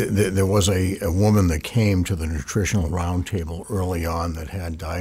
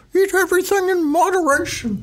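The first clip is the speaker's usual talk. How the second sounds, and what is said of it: Imitates another person's voice. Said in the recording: “That was a good impersonation.”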